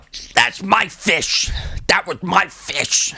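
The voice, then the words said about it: Imitates an actor's film voice. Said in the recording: “That's the voice he's doing the whole time. I realized when I came here that I could do that voice very well. ... You really can.”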